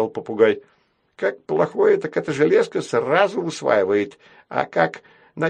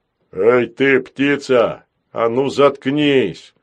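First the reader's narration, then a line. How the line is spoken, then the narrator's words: Barked. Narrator (Russian): рявкнул Грохотун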